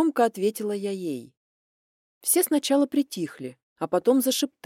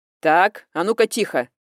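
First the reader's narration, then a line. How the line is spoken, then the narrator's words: Stern bark. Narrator (Russian): строго гаркнула Варвара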